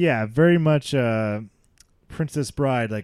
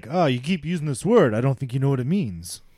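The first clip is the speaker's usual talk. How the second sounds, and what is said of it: Bad put-on Spanish accent. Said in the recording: “that was my Spanish accent. that was terrible.”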